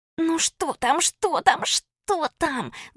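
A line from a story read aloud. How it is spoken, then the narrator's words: Hissing chorus of girls. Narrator (Russian): зашипели со всех сторон девчонки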